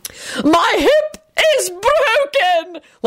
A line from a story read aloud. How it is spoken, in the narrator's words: Lady Fanshawe screamed from the floor